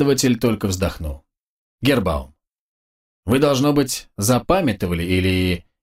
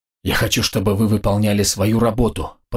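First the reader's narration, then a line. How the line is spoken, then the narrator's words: Hissed. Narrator (Russian): прошипел оружейник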